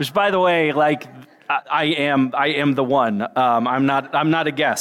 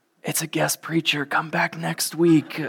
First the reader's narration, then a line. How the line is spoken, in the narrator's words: the people around you whisper